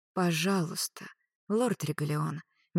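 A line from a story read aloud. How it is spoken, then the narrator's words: Soft. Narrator (Russian): мягко сказала Клариса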